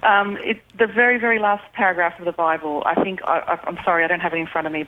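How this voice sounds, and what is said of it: Australian accent. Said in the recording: “since you like the accent ... No to an Australian.”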